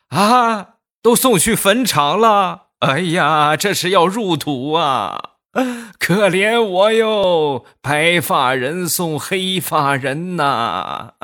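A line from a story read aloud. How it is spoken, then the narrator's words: Grandmother crying. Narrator (Chinese): 他奶奶一听，当时就哭了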